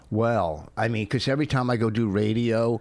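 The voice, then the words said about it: Put-on radio voice. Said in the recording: “using a different voice than you normally use ... my new radio voice ... That's my radio voice.”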